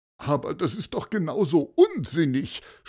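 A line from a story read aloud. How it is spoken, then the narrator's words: Groaning. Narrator (German): stöhnte Paulus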